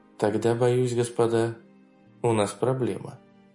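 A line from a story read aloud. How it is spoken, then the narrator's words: Quiet. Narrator (Russian): тихо произнесла Харрингтон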